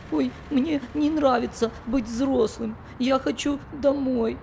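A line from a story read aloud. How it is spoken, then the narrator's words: Tearful. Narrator (Russian): сказал сквозь слезы Фафа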